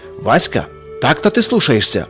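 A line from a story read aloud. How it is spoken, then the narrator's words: Father's sharp shout. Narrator (Russian): прикрикнул вслед ему отец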